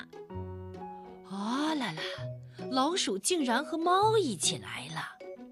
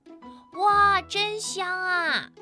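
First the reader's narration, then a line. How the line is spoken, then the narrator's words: Crying out together. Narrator (Chinese): 他们叫起来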